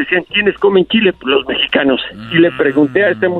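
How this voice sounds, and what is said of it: Usual voice. Nothing is said of it.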